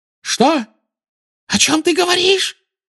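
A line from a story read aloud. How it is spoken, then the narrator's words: Shrill squeal. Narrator (Russian): взвизгнула она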